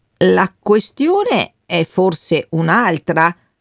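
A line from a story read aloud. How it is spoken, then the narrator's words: Slow retort. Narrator (Italian): ribatté il Bernardi lentamente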